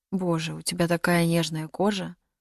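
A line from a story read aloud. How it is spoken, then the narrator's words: Whisper. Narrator (Russian): прошептал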